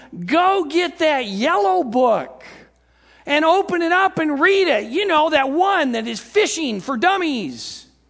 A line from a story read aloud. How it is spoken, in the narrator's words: this guy hollering from the shore, telling him